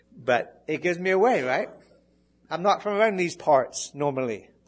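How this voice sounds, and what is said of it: Faint English accent. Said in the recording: “My English accent just gives me away sometimes ... It's gone for the most part, I think”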